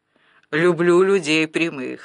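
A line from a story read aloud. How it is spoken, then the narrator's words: Laughing host. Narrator (Russian): рассмеялся хозяин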